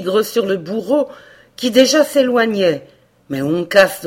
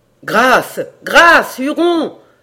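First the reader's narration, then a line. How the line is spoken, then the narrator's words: Horrified cry from above. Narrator (French): s'écria d'en haut la voix d'Hayward, à qui l'horreur ôtait presque la parole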